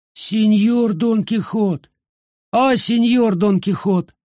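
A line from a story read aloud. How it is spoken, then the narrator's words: Weak, plaintive voice. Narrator (Russian): он произнес слабым, жалобным голосом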